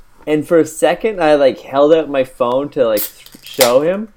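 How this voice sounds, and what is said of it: Usual voice. Nothing is said of it.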